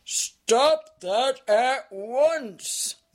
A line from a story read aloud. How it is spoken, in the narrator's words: thundered Azaz